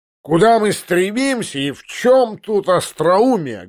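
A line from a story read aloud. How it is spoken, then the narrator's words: Loud shout. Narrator (Russian): громко прокричал поручик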